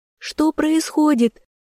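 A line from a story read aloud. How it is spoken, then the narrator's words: Startled cry. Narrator (Russian): вскрикнула Яна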